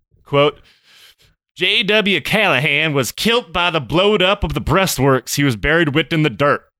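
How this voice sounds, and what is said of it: Put-on Confederate Southern accent. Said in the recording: “do your best Confederate accent”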